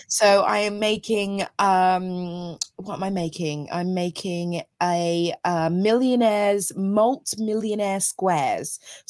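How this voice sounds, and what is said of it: Croaky voice. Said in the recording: “my voice has gone funny ... croaky voice”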